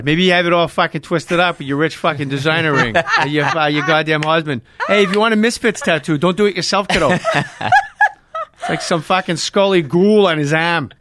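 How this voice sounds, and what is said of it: Exaggerated Boston accent. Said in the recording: “You sound like a little Boston accent.”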